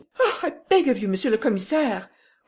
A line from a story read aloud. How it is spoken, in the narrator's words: cried Madame Renaud